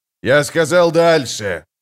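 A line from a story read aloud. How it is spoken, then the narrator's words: Roar. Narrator (Russian): проревел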